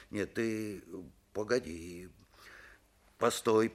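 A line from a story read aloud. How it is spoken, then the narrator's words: Muttered. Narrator (Russian): пробормотал он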